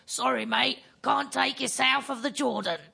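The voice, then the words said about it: Put-on Cockney English accent. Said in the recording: “my terrible English accent. ... That was a good Cockney accent.”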